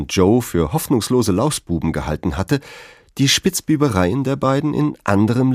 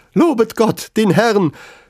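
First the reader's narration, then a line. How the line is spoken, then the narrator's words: Sudden shout. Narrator (German): schrie plötzlich Mr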